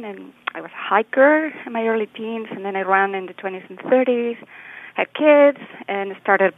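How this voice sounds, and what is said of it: Spanish-accented English. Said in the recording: “shy for because of my accent ... transplanted to the U.S. from northern Spain”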